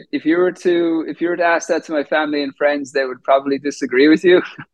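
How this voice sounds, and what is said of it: Faded Irish accent. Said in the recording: “doesn't sound like he's from Georgia ... you're originally from Ireland. So your accent is you're still holding on to the native land ... It's probably a hybrid, I would say. It's definitely not as thick as it was when I first came over”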